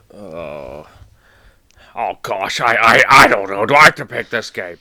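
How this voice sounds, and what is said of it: Impression with slightly too much bass. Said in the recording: “doing an impression of you is amazing. That was good. A little too Murtaugh-y. ... Take the bass down a little bit, and that would have been a perfect J.O. impression.”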